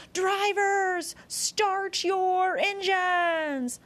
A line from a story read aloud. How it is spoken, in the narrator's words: The announcer called out